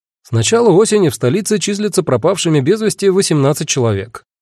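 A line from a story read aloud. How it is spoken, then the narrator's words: Brisk cheerful report. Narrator (Russian): бодро отрапортовал тот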